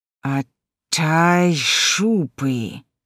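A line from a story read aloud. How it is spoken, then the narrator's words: Hissing. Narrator (Russian): шипел крокодил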